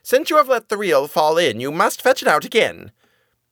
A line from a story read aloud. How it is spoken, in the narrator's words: scolded her so sharply and was so merciless that she said